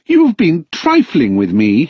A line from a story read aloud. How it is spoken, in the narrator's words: he cried